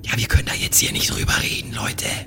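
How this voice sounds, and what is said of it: Whispering. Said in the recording (German): “Ganz unauffällig am Flüstern ... Wieso flüstern wir?”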